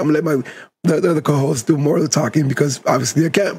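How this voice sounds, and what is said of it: Hoarse, strained voice. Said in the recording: “My voice is a little shot because I was at the game yesterday ... get your voice back”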